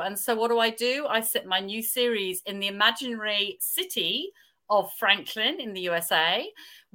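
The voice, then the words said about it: Australian accent. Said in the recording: “You can probably tell from my accent that I live in Australia. I was born in England”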